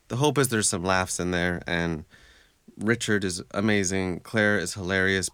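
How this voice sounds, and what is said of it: American accent. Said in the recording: “You cannot tell from my accent. I sound, you know, very American.”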